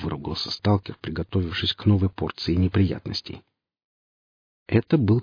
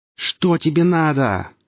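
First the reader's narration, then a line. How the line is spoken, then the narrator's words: Terrified yell. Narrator (Russian): заорал сталкер, ощущая, как по спине и рукам бегут мурашки, а волосы на затылке шевелятся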